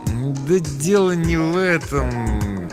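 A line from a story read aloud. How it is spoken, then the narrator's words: Hesitant mumble. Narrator (Russian): промямлил Фиш, на ходу придумывая отговорки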